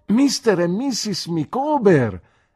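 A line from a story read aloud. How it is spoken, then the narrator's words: Exclaiming. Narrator (Italian): esclamai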